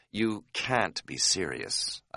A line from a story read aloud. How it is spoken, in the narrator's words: I said quietly